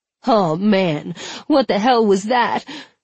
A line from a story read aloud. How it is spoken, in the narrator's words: Hudson whined